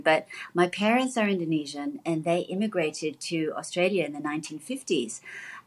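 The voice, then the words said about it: Mixed English-Australian mid-Pacific accent. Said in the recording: “strange accent, you know, a little bit mid-Pacific, but we're not quite sure because you sound a little English, but you also could be Australian”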